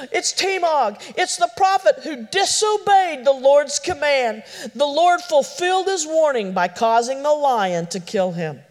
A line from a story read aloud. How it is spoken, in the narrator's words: Opog he exclaimed